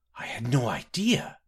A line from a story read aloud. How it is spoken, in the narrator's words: the young woman whispered